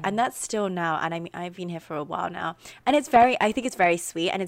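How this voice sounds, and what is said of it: British accent. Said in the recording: “how many like Americans really love the British accent.”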